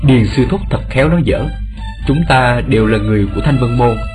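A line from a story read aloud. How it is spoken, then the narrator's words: Smiling, polite. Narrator (Vietnamese): Tề Hạo mỉm cười thưa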